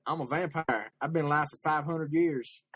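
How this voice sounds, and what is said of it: Imitated Texan good-old-boy voice. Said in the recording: “That's my impression. ... He's from Texas, and he has a very good old boy name.”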